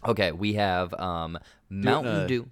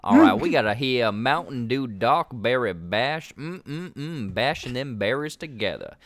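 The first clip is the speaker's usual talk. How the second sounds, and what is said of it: Put-on Southern American accent. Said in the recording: “Do it in a Southern accent, please.”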